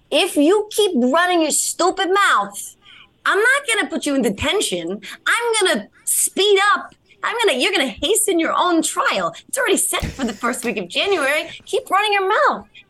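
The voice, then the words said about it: Jersey Italian woman accent impression. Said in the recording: “That is the best impression, by the way, of a black woman judge who sounds like an Italian woman from Jersey ... That was beautiful”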